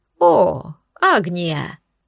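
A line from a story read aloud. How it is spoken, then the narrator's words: Joyful, cheeky reply. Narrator (Russian): Радостно отозвалась дерзкая достопримечательность Академии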